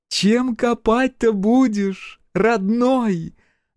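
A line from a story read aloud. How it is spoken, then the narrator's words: Mocking shout. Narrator (Russian): Насмешливо крикнула Акулина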